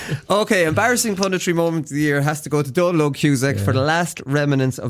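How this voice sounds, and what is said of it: Usual voice. Nothing is said of it.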